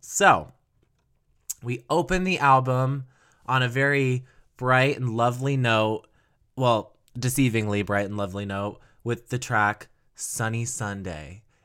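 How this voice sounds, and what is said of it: Low, sick-sounding voice. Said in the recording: “I'm a little sick right now, so my voice is very low”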